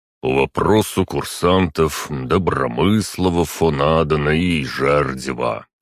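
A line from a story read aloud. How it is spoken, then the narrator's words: Deep bass voice. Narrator (Russian): пробасил он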